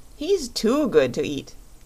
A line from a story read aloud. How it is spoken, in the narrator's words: laughed Chick the Cherub